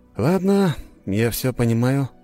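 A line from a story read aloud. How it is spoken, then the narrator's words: Sighing. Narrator (Russian): вздохнул я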